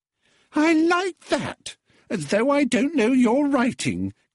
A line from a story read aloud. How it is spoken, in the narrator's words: giggled the girl with an affected shriek